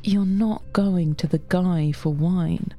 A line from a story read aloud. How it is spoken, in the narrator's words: Mark says